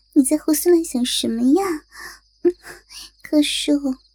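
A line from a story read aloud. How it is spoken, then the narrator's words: Giggling girl. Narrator (Chinese): 小妮子忍不住痴痴的笑着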